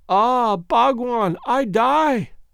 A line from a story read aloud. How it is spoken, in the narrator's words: gasped